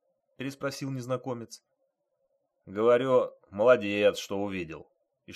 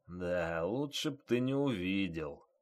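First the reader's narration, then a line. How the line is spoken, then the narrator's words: Grumbled. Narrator (Russian): проворчал старшина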